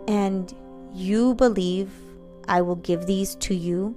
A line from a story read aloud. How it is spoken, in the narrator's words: Valac asked slowly